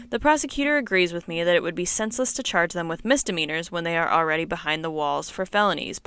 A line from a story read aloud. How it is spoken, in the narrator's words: Palmer said